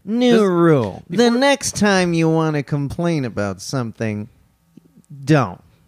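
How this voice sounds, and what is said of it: Bill Maher impression. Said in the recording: “do a Bill Maher impression? ... That's pretty good. ... It's pretty good.”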